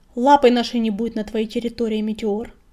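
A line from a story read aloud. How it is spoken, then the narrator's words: Snapping retort. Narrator (Russian): огрызнулся черняк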